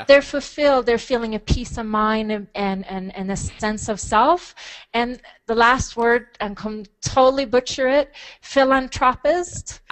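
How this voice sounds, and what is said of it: Swedish accent. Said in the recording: “that Swedish accent. Here, it's the Swedish accent that we love and adore.”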